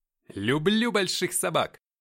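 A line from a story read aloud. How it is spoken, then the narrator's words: Loud shout. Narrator (Russian): громко выкрикнул я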